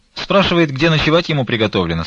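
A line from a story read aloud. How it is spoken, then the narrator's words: Plain. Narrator (Russian): сказала она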